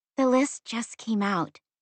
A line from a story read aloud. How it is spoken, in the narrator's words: said softly